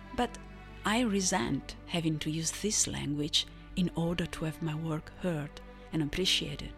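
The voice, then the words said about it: Non-native English accent. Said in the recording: “it is not my native language ... my spoken English is not bad either, if you can get over the accent.”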